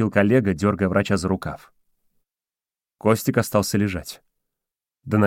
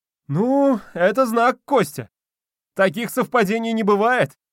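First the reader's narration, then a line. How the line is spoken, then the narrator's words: Excited exclamation. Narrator (Russian): воскликнул Вадик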